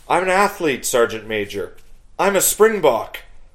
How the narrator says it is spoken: his eyes wide in shock, and cried out

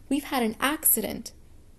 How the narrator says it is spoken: the children shouting

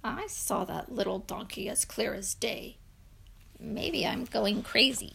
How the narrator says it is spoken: muttered

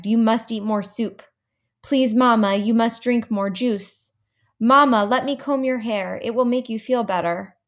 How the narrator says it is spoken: begged

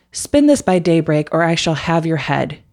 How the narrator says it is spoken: he said

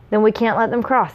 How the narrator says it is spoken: he added firmly

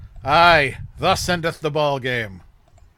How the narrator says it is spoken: Charlie Brown sighs

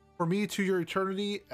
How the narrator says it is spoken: I cried 4 times

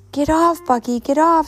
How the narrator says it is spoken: screamed Razzie

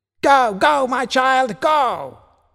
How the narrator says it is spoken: shouted her Uncle Ridley

